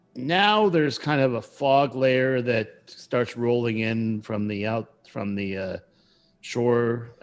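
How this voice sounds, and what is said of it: Speaks in a character's voice. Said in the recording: “I don't know why I was still doing his voice. I got stuck in the voice.”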